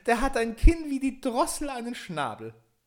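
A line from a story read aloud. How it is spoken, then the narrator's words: Calling out, laughing. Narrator (German): rief sie und lachte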